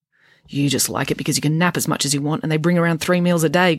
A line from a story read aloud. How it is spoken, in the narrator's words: grumbled Friday